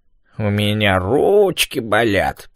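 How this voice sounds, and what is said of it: Mocking imitation of whiny complaint. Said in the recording (Russian): “передразнил”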